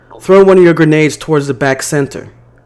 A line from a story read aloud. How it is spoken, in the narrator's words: I yelled out